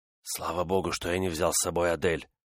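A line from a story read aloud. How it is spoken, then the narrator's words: Whisper. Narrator (Russian): прошептал Декатина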